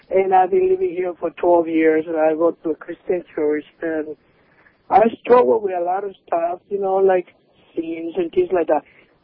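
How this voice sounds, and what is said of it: Slight Cuban accent. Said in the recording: “I'm Cuban. I'm sorry about my accent a little bit. Raised in Miami.”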